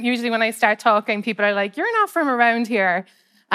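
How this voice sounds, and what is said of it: Irish accent. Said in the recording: “I don't know if you can tell by my accent ... a harbour town in Ireland”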